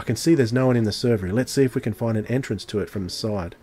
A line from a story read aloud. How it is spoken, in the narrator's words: Thinking quickly, the doctor said